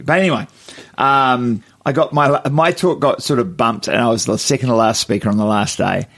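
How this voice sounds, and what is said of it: Croaky, strained voice. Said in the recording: “My voice is a bit croaky. That's because Spookers was last night, and I was yelling a bit.”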